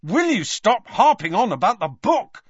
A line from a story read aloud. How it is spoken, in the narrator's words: snapped Harry